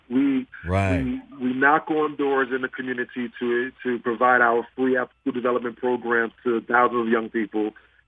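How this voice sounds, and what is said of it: Thick New York Brooklyn accent. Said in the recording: “you sound exactly like actor-comedian Tracy Morgan, because you have that thick New York accent ... It's that Brooklyn in me”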